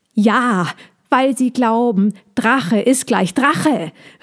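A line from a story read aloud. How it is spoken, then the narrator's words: Hedgehog shouting beside himself. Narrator (German): rief der Igel außer sich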